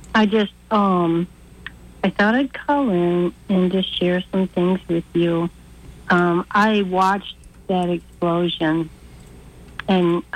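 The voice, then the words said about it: Tired-sounding voice. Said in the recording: “You sound tired. ... You sound tired.”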